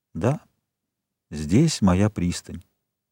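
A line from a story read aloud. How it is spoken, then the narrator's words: Quiet. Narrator (Russian): он тихо прибавил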